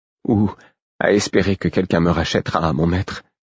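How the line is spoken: Dejected tone. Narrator (French): dit-elle d'un ton accablé

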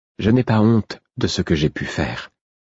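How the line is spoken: Calm, even tone. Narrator (French): dit-elle d'un ton égal

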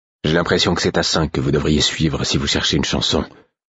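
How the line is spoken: Indignant mutter. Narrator (French): marmonnai-je, révolté

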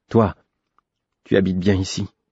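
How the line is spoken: Sullen tone. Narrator (French): observai-je d'un ton maussade

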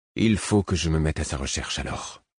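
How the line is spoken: Confused mumble. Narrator (French): marmonnai-je confus

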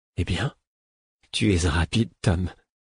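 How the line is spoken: Small quiet voice. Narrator (French): elle dit d'une petite voix

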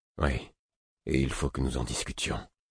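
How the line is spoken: Grave serious tone. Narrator (French): dis-je d'un ton grave

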